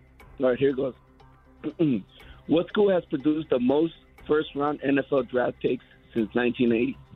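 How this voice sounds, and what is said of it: Hoarse, strained voice. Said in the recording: “I lost my voice”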